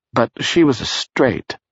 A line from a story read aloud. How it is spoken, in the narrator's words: Barris said